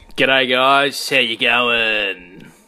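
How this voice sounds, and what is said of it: Exaggerated Australian accent. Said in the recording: “the amazingly Australian ... You don't have to put on a fake accent.”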